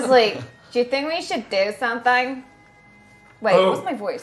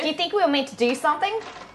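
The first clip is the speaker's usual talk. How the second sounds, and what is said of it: Put-on Australian accent. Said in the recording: “You wanted to do an Aussie voice? ... to do a bit of an Aussie.”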